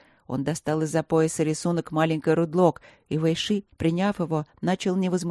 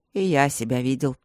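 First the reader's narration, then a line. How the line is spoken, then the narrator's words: Snorting chuckle. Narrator (Russian): хмыкнул Четыре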